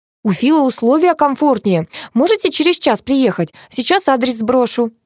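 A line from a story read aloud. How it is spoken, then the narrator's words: Cheerful. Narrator (Russian): весело продолжила Ира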